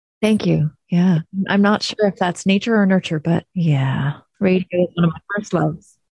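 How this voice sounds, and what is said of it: Soothing radio voice. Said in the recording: “you have a very soothing radio voice”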